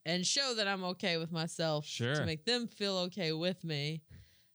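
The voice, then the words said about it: Southern American accent. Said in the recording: “having this southern accent”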